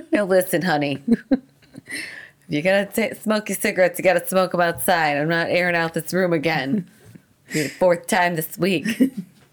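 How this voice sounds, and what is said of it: Attempted New Jersey accent. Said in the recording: “Imagine it's someone with like a Jersey accent. ... I don't think that's Jersey”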